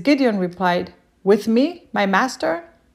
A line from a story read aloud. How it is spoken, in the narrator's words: He says